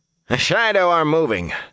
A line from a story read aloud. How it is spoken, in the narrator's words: Han barked